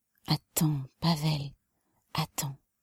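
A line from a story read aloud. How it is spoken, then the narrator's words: Breathless whisper. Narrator (French): chuchota-t-elle haletante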